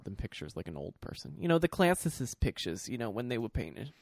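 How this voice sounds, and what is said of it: Put-on New York accent. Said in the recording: “New York Jew accent ... I was trying to do a what's-his-face, a Frank Stella”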